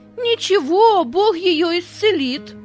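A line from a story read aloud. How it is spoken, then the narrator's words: Half-joking shout. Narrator (Russian): То ли серьезно, то ли шутя, выкрикнул Петя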